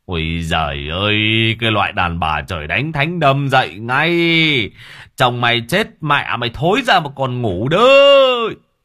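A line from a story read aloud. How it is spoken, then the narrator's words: Middle-aged man yelling. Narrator (Vietnamese): một ông trung niên gào lên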